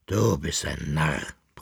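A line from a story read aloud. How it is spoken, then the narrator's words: Grumbling. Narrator (German): brummte er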